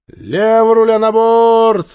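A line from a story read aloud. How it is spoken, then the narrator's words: Loud command. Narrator (Russian): громко скомандовала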